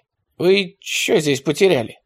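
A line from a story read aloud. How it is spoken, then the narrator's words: Hoarse question. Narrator (Russian): хрипло спросил атаман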